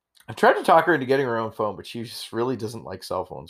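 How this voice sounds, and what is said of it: Slightly rough voice. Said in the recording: “My voice is a little rough.”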